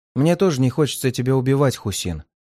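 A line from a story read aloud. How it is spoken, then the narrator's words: Plain. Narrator (Russian): ответил я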